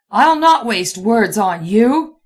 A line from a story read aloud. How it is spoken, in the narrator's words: he roared